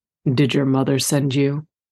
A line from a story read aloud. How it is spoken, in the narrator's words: Jake asked, his voice a low rumble